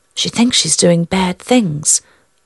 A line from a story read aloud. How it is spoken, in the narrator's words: the mirror whispered